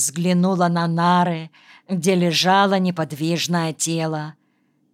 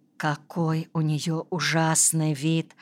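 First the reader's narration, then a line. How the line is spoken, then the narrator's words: Whispered. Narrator (Russian): прошептала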